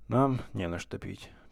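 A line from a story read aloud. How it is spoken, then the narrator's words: Grumbled. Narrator (Russian): пробурчал Кукушкин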